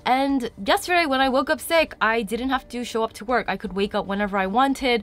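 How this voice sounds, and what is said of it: Congested, sick-sounding voice. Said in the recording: “maybe you can hear in my voice, I'm a little bit congested right now because I got sick yesterday”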